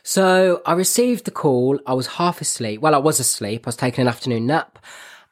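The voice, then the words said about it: Birmingham English accent. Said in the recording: “I'm from Birmingham and my accent is terrible”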